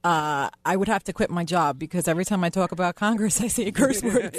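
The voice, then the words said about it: New York / New Jersey accent. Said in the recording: “with the New York, New Jersey accent, it's just funny”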